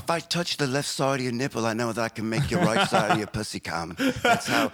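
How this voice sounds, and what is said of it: Put-on English accent. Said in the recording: “he's from England. He's probably more like this.”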